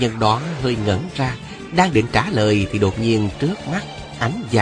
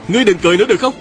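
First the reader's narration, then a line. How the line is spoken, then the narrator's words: Young man's moved shout. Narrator (Vietnamese): Một đạo nhân còn trẻ bỗng động lòng, không nỡ nhìn thấy một cô nương yếu điệu cười đẹp như thế lại bị loạn kiếm phân thây, bèn hét lên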